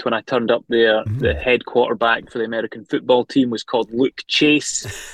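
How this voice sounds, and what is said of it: Scottish accent. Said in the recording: “Did they like the Scottish accent ... how Scottish I sounded”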